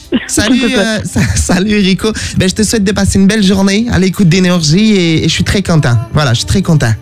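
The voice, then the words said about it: Put-on Québécois French accent. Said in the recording (French): “l'accent québécois que je viens de faire? C'était pas bon.”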